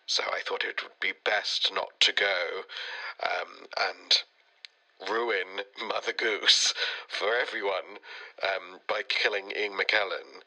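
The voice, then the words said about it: Sick, congested voice. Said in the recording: “as you can probably tell from my voice... I got very, very sick, and I've got a chest infection”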